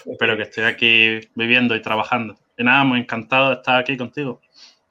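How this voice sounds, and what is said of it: Spanish accent from Spain. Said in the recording (Spanish): “se me nota de todas maneras por el acento, pero que yo no soy inglés, soy de España”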